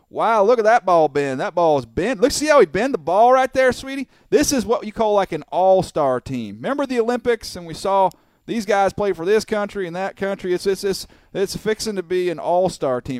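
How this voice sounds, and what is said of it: Thick southern American accent. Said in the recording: “the thickest southern accent you've ever heard before”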